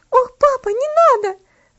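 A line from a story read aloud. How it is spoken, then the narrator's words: Terrified scream. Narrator (Russian): закричала она в ужасе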